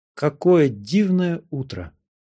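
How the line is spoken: Loud, delighted. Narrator (Russian): Геля, переполненная восхищением, громко сказала

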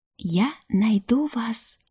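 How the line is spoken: Whisper. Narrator (Russian): прошептала я

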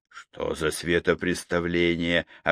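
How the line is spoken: Plain. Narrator (Russian): сказал Лукьянов

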